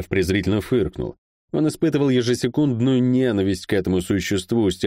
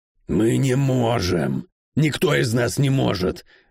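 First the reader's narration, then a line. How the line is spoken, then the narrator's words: Irritated hiss. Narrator (Russian): раздраженно зашипел тот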